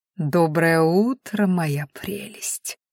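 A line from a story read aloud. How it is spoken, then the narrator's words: Ingratiating whisper. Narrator (Russian): вкрадчиво прошептал он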